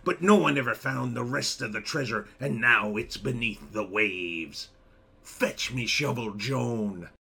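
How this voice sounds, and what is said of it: Put-on southwestern pirate accent. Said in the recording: “the accent good as well ... it was spot on, yeah ... that sort of southwesterly city urban accent that pirates have”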